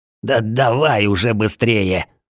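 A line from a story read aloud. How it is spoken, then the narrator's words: Angry snapping old man. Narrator (Russian): зло огрызнулся старик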